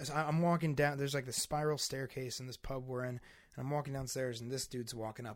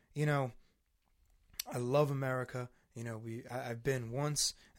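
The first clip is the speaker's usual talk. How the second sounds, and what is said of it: Poor imitation of English countryside accent. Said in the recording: “I'm doing a terrible accent. I can't fucking do accents well right now.”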